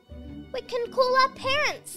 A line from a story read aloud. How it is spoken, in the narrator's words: he yelled